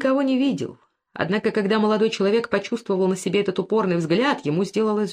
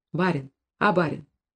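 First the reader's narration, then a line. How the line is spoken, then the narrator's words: Vagrant calling quietly. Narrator (Russian): тихо звал Семенова бродяга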